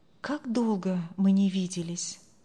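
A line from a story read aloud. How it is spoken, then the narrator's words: Inward sigh. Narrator (Russian): вздохнул про себя Андрей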